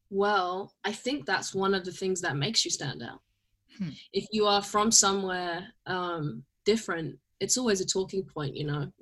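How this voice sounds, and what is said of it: London accent. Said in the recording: “my accent alone ... Oh, are you from London?”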